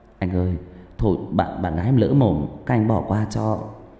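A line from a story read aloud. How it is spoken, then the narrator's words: Young man, trembling voice. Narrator (Vietnamese): Người thanh niên, giọng run rẩy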